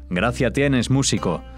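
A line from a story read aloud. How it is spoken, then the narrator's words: Old man shouting. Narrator (Spanish): gritóle uno de los ancianos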